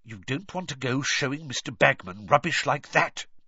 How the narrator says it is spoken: Percy hissed

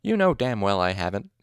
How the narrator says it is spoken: he said crossly

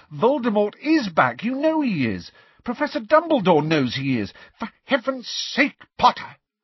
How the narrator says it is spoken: said Professor McGonagall, angrily

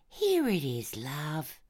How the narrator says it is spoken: I said in my kindest voice

